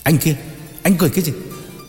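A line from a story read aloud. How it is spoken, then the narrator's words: Shouted. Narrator (Vietnamese): quát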